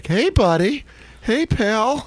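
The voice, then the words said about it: Phony cheerful dad voice. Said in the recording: “It's that dad voice. ... He's got to go back into being that phony. Hey, buddy.”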